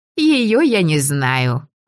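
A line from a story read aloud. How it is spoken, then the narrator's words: Ringing youthful laughter. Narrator (Russian): Пиония рассмеялась не по годам звонко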